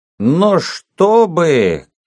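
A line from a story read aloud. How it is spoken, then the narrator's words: Drunken shouting. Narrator (Russian): кричал стоя шатаясь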